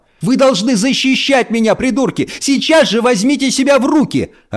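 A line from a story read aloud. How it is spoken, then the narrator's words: Yelling, voice breaking. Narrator (Russian): орала она срывающимся голосом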